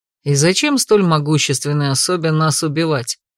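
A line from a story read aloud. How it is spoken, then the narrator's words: Plain. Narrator (Russian): спросил Эйнар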